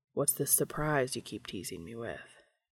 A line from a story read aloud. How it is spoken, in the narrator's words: Dean said, pausing to murmur the question against Cass's clavicle